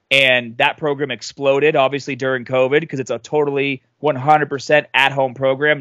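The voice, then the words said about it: Regional American accent. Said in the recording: “people love my accent ... you got the Pat McAfee accent going there ... my accent kind of goes in and out”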